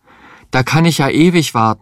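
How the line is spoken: Desperate cry. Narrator (German): rief er verzweifelt

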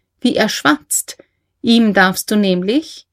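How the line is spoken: Said laughing. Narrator (German): sagte lachend

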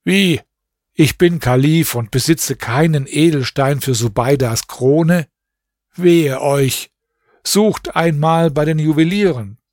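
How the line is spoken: Dismayed exclamation. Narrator (German): rief er bestürzt aus

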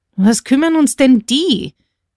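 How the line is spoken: Big guard's shout. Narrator (German): rief nun schon der große Wächter

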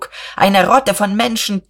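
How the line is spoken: Shouting. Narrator (German): schrie Buck

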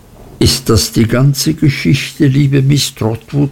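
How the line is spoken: Plain question. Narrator (German): fragte Agnes

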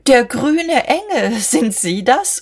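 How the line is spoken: Laughing. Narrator (German): lachte

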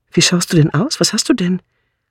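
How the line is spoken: Frightened call. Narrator (German): rief Bunch ängstlich

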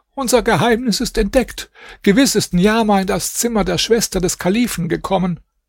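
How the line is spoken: Old woman calling. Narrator (German): Die Alte rief

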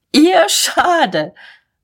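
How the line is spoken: Raucous laughter. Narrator (German): Mahlmann lachte tobend

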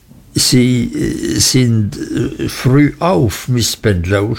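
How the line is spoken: Stammering. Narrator (German): stotterte ich

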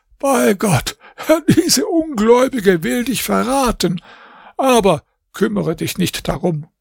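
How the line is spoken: Old man laughing. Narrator (German): Der Alte lachte und sagte

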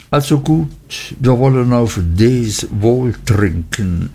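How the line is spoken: Embarrassed, hesitant. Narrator (German): Nach langem verlegenen Erröten, Stottern und Leugnen sagte ich endlich

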